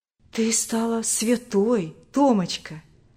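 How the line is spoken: Gentle old woman. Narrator (Russian): ласково говорила старушка

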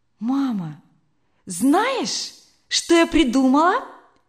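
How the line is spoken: Sudden joyful exclamation. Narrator (Russian): Вдруг радостно воскликнула она

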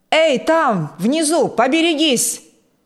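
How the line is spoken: Calm, then desperate frightened scream. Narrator (Russian): Спокойно продолжал он, но уже через секунду крикнул истошно, в страхе отчаянном

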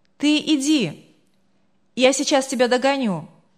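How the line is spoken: Calling out. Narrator (Russian): крикнул девушке

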